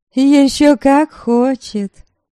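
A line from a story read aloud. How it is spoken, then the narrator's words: Cheerful reply. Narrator (Russian): весело отозвалась Милорада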